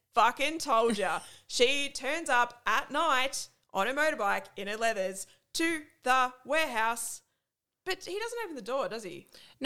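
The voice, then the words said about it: Broad Australian accent. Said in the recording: “my normal, broad, disgusting Australian accent”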